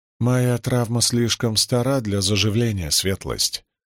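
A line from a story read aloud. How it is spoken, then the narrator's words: Sighing. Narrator (Russian): вздохнула Рисн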